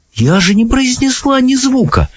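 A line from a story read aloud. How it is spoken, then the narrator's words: Exclaiming. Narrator (Russian): воскликнула Софи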